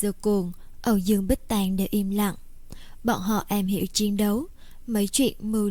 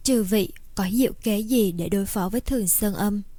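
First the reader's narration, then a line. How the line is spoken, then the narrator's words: Sighing question. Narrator (Vietnamese): Lưu Văn Vũ thở dài, hỏi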